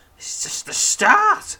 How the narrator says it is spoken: pants Weel

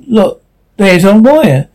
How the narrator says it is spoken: Dave exclaimed

